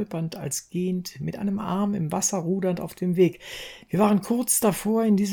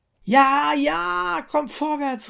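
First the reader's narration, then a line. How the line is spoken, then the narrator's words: Called out. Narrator (German): rief ich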